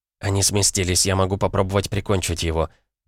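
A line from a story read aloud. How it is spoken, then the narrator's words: Whisper over radio. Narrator (Russian): прошептала по рации Наталья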